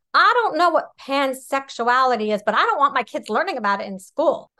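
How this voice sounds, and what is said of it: Imitates another person's voice. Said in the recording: “I'll see if I can do his accent.”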